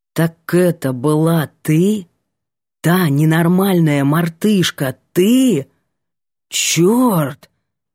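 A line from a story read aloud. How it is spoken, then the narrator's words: Breathed out. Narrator (Russian): выдохнул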